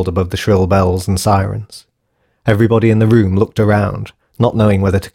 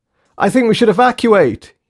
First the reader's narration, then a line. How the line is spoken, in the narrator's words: yelled Jane